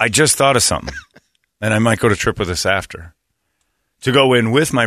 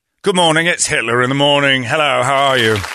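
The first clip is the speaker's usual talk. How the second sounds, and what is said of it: Put-on British accent. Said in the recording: “my British accent”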